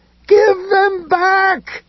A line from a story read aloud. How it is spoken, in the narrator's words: Ed screamed